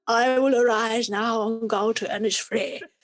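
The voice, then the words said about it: Cut-glass English accent. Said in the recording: “Very, very cut, you know, glass English accent.”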